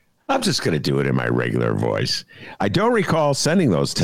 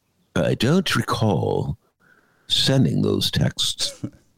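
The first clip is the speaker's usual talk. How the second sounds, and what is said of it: Imitates another person's voice. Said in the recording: “I'm going to do this in my Laurence Olivier voice.”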